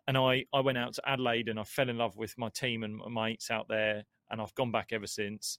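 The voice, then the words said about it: Australian-sounding accent. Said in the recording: “So I went to Australia, hence this accent.”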